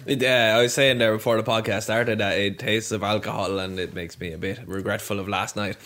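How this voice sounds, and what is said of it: Slightly hoarse voice. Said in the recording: “my voice is a bit hoarse,”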